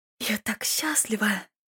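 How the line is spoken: Whisper. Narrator (Russian): прошептала леди Дарвана

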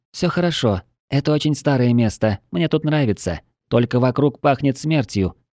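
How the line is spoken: Quiet, almost childlike voice. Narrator (Russian): тихим, почти детским голосом ответила дриада

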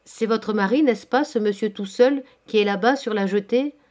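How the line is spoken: Plain. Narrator (French): demanda Hector

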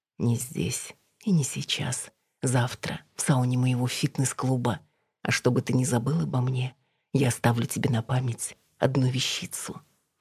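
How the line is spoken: Girl whispering. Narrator (Russian): девушка шепнула

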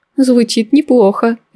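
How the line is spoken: Laughing. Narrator (Russian): рассмеялась Мэй

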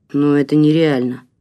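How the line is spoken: Grumbling mutter. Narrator (Russian): пробурчал Игорь

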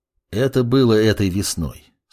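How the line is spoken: Calm demon voice. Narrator (Russian): спокойно произнес демон

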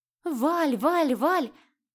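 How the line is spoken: Irritated exclamation. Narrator (Russian): с раздражением воскликнула Марьяна

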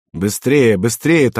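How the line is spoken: Hurried urging. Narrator (Russian): торопил его Пеклеванный

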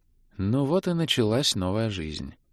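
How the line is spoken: Gloomy sigh. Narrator (Russian): уныло вздохнула Илли

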